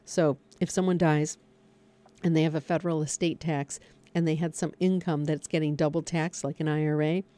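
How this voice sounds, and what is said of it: Hoarse, failing voice. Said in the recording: “losing my voice”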